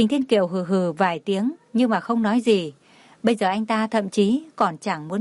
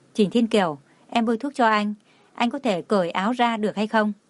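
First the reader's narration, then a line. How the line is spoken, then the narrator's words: Soft, frowning concern. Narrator (Vietnamese): Cảnh Thiên Ngọc không khỏi nhíu mày lại, khẽ nói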